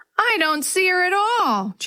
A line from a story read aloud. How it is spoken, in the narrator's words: Jenny wailed